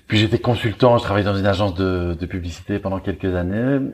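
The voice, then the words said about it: Belgian French accent. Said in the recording (French): “je suis belge, vous l'entendez sans doute un petit peu à mon accent.”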